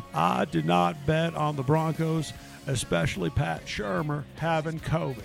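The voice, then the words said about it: Bill Clinton impression. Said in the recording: “Maybe I should do a Bill Clinton imitation. ... That's not bad. Your Bubba isn't bad.”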